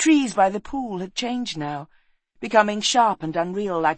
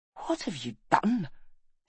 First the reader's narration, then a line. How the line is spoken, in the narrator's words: he whispered